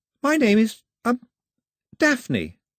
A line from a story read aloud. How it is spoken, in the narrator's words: looked at him nervously and said